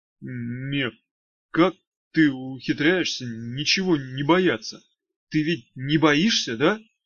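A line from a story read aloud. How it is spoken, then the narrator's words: Timid question. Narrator (Russian): робко спросил Мошкин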